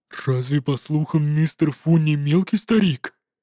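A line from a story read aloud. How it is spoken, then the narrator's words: Muttered. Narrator (Russian): он пробормотал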